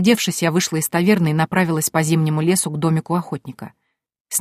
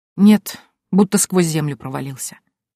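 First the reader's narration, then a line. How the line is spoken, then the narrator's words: Heavy sigh. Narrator (Russian): тяжело вздохнула повариха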